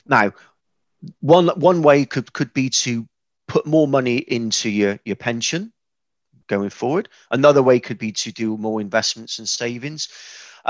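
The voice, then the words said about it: West Country English accent. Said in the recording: “I'm a fairly simple person from the West Country, as you've probably told by now from my accent.”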